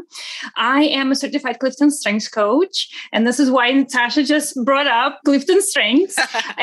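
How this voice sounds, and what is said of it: Russian accent. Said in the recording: “as people will hear in my accent ... I wasn't born in the States. I am originally from Russia, from St. Petersburg, Russia.”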